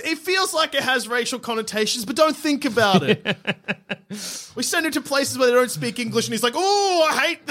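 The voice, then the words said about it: Imitates another person's voice and laugh. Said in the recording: “that was a good Ricky Gervais laugh impression.”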